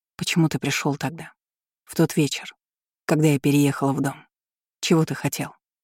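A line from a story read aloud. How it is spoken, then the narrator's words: Sad, smiling tone. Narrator (Russian): грустно улыбнулся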